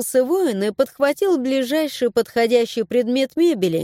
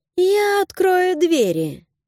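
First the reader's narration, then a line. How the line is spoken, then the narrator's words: Purring. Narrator (Russian): Мурлыкнула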